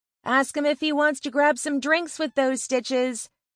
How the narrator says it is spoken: she yells to my back

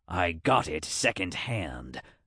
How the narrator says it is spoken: Rance muttered

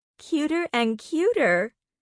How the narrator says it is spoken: the woman giggled

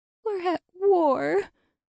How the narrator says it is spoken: Lucy said with a sob

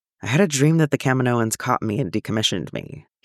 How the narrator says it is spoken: he says

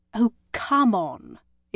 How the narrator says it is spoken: Isabel exclaimed

